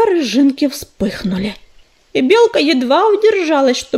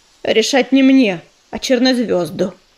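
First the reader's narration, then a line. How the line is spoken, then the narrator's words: Dry reminder. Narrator (Russian): сухо напомнила она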